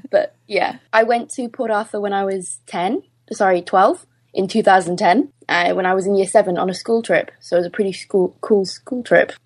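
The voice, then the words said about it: Welsh-Australian accent, not quite Australian. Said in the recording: “I'm Welsh Australian... Which explains the weird accent that isn't Australian... that's not Australian”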